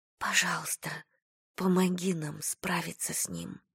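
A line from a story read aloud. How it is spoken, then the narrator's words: Whisper. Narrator (Russian): прошептала Айрис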